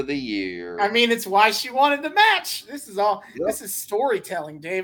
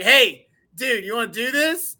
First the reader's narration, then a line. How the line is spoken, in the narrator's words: Jeff Hardy just kind of yells into the locker room and he's like